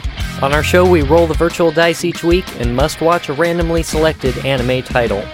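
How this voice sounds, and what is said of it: Strained, worn-out voice. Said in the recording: “I did karaoke and wrecked my voice.”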